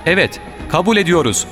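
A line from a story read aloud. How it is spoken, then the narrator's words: Shouting together. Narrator (Turkish): diye bağırdılar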